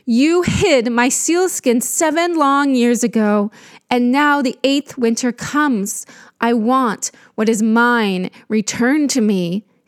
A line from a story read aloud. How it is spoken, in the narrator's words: mother cried